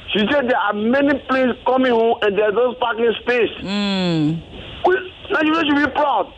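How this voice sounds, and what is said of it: Liberian English accent. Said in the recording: “I love the Liberian accent.”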